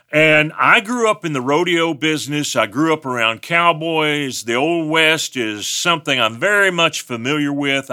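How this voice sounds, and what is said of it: West Texas accent. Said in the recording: “I'm from West Texas. I have an accent.”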